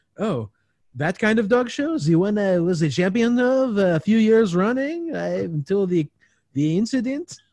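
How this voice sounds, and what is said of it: Mock French accent impression. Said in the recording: “great imitation you did there ... my impression of Stanley Tucci doing an impression of a French person”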